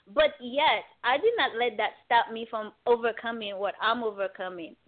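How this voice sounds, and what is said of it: Non-native English accent. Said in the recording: “English is my fourth language ... You can hear it from my accent.”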